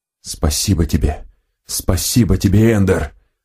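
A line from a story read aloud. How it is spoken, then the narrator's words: Whisper. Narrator (Russian): прошептал он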